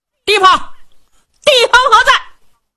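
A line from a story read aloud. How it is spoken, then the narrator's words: Loud shouting. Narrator (Chinese): 高声喊嚷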